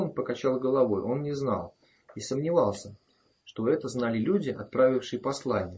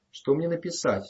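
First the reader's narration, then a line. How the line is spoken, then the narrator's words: Plain. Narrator (Russian): спросил Кадберт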